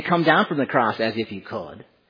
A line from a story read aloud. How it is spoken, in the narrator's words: the Jewish crowds mocking Jesus, saying